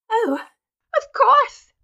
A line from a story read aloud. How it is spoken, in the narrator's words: she cried hysterically